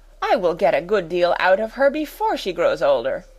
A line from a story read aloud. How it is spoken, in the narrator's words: exclaimed Miss Minchin